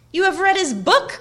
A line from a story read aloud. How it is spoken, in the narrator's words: cried Frodo